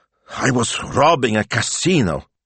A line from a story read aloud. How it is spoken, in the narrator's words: he gasped, his heart still pounding